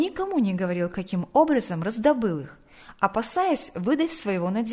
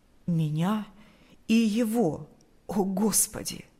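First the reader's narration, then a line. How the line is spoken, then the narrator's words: Trembling voice. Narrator (Russian): произнес он дрожащим голосом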